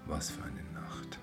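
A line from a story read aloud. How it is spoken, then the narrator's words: Murmuring. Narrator (German): murmelte Josef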